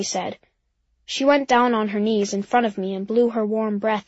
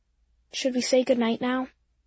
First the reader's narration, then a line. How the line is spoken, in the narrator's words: Daddy asked in a quiet voice